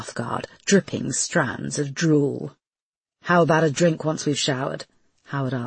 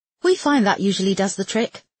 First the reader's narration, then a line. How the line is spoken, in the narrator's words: told her cheerfully